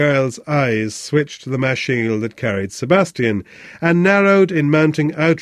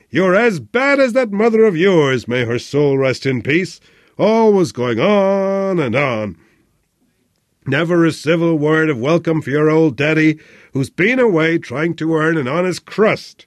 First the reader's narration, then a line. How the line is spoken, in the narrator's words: roared